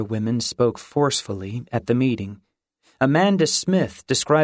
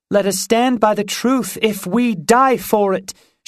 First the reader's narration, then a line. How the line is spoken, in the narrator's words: she cried as the tabernacle erupted in applause